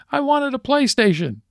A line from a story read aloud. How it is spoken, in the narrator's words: the kid screams